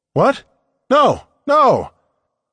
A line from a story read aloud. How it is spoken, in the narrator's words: I had been too loud